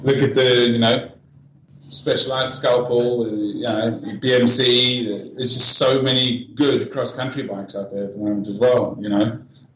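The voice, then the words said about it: South African accent. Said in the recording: “that accent of yours ... Is that South African? ... Yes, it is.”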